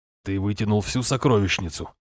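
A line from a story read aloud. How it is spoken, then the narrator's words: Grumbling. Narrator (Russian): буркнул Фьялбьорн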